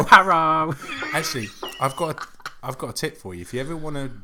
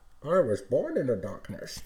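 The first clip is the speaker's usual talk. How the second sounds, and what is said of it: Bane impression. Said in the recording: “do a Bane impression... talk into it... you kind of sound a little bit like Bane... Still sounds like Kim Jong-il.”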